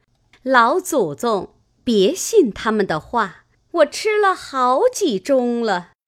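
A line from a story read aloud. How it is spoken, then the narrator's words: Hurried, laughing. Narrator (Chinese): 凤姐儿忙也 笑说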